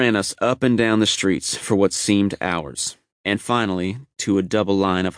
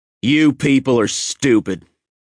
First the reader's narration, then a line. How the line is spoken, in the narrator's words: he bellowed